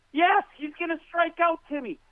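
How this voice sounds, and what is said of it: Raised, shouting angry voice. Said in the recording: “I scream it. I'm sorry I'm getting raising my voice”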